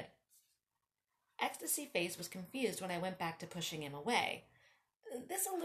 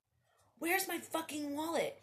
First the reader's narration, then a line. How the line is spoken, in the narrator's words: He yelled over the bass